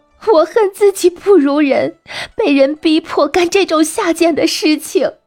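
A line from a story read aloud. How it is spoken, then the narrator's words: Crying. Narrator (Chinese): 女子哭着说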